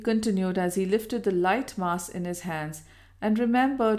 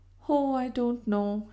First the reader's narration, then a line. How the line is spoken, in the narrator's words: she rejoined sadly